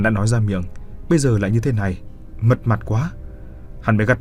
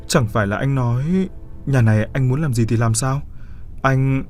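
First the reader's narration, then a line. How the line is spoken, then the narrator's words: Feigned fearful trembling. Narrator (Vietnamese): Cô giả vờ ngây thơ sợ hãi rồi run rẩy hỏi hắn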